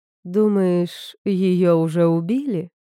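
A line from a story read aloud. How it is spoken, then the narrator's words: Silky cooing. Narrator (Russian): шелковым голоском проворковала Вейл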